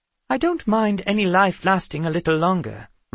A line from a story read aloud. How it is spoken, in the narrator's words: Risen May said